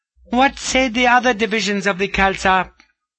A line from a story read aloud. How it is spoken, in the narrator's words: her chief maid, who called out